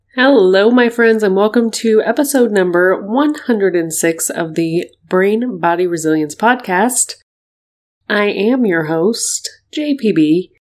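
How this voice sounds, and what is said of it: Voice altered from illness. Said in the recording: “as you can hear, my voice is just a little bit different today. I got a little sick”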